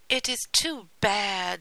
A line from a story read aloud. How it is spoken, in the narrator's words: the people exclaimed